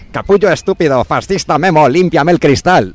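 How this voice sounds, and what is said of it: Imitates another person's voice. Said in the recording (Spanish): “Voy a poner la voz de Evaristo, además, imitando ahí. ... Oye, lo ha clavado.”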